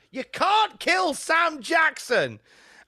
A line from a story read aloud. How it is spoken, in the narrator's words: an audience member shouted